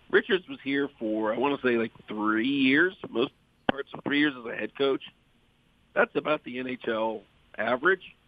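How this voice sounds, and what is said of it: Sick, strained voice. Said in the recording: “Sorry about the voice. I'm fighting it right now”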